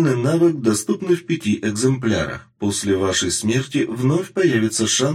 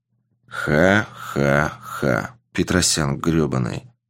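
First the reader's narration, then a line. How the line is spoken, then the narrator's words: Man grumbling. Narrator (Russian): проворчал мужчина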